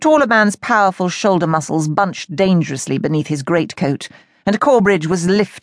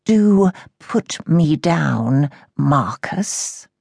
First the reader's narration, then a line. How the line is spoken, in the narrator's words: breathed Lord Sebastian Corbridge